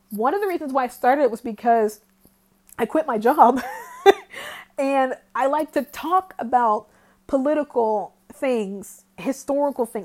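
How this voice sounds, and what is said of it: Strained, fading voice. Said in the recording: “my voice is going out”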